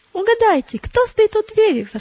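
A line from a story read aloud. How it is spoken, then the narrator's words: Exclamation. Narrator (Russian): воскликнула она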